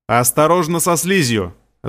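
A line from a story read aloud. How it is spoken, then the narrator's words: Shouted. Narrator (Russian): закричал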